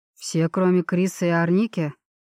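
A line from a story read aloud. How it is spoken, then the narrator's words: Snorting grunt. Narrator (Russian): хмыкнул Джереми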